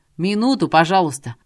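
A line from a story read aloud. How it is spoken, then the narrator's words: Shouting toward door. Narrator (Russian): крикнул он в сторону двери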